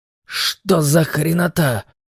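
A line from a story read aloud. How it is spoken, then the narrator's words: Muttered. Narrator (Russian): пробормотал капитан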